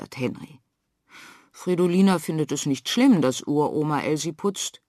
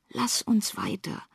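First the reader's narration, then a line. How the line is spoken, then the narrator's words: Whispering in ear. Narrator (German): flüstert Fridolina Henry ins Ohr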